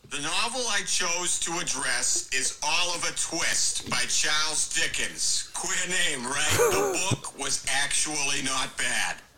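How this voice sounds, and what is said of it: Put-on Boston accent. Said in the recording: “On Family Guy, there's the Boston Area Book Report... that accent”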